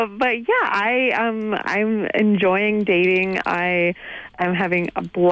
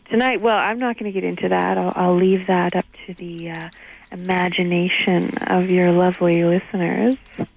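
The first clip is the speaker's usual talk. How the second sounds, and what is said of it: Sultry, seductive voice. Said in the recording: “you just dropped into sexy voice”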